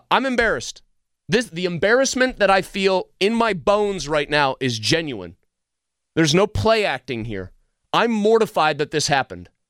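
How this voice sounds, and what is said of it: Loud yelling, agitated rant. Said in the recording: “I'm yelling, I'm being crazy”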